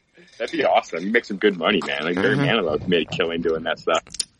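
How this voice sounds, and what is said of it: Deeper, congested voice. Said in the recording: “got a little bit of a little chest cold going on? ... my voice may be even more deeper than usual ... coffee cough, sneezy sneeze”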